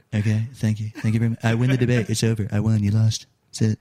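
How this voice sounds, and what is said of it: Good Donald Trump impression. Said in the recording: “That's a good impression, dude.”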